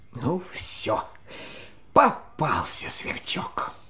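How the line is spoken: Sighing. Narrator (Russian): Вздохнул и говорит

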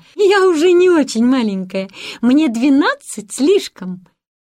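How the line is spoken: Forced laugh. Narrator (Russian): Гретель заставила себя рассмеяться и ответила

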